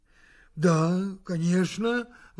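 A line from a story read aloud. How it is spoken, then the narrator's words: Exclamation. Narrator (Russian): воскликнул Иобст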